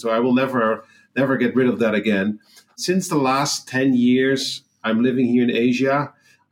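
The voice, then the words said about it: Dutch accent in English. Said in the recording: “my accent is revealing it. I'm from the Netherlands. How hard we try, we keep on bumping into the accent.”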